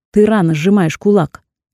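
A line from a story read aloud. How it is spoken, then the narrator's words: Man speaking harshly. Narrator (Russian): жестким тоном проговорил второй мужчина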